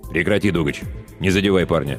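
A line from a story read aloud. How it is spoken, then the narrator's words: Curt clipped command. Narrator (Russian): отрывисто бросил мастер Руго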